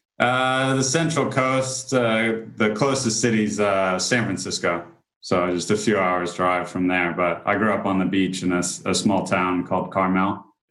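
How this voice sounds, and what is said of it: Sounds like an English accent. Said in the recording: “I thought it was an English accent”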